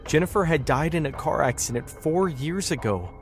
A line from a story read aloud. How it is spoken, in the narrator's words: she said, her voice breaking with sorrow